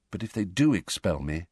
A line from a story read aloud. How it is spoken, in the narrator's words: said Harry quietly